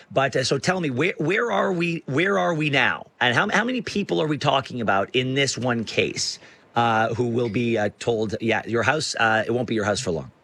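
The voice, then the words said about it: Slightly raspy voice. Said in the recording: “apologize for my voice. It's a little raspy”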